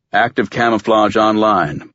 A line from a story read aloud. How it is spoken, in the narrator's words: Waters said